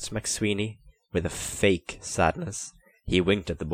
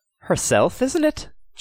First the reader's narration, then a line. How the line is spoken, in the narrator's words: chuckled MacSweeney